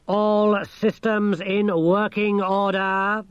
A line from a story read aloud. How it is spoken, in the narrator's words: boomed the thing